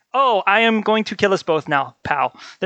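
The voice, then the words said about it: Hitler impression. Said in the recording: “do an impersonation of Hitler drinking a Colorado Bulldog”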